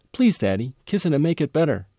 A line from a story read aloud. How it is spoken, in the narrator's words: my oldest daughter looked at me with tears in her eyes from a minor mishap and pleaded